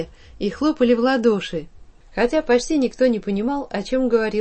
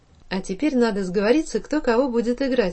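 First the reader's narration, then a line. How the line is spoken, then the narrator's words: Plain. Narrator (Russian): сказал Ваня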